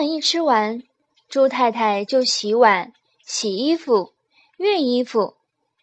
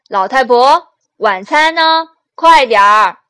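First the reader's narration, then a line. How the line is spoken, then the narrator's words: Loud shout. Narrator (Chinese): 朱先生……总是大声喊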